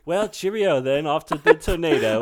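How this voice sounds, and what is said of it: Mock almost-British Cary Elwes accent. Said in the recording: “Classic Carrie Elwes. ... Some weird, almost British accent that doesn't fit anywhere in the movie. ... This guy faking it. ... He does the same accent in Twister.”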